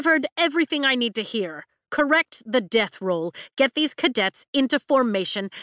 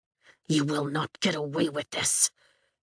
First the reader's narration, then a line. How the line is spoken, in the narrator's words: Atos hisses but keeps his voice low